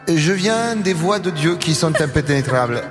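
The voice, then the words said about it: Put-on mixed foreign accent. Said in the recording (French): “je vais prendre cet accent-là ... sur l'accent, il vient d'où? ... je crois que c'est du Portugal. ... Ça mélange.”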